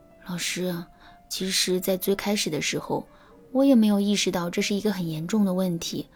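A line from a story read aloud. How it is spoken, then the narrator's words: Sighing. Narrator (Chinese): 那姑娘再次叹了一口气，然后对我说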